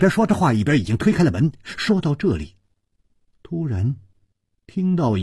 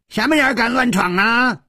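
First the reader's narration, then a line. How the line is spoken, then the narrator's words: Angry roar. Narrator (Chinese): 吼声之中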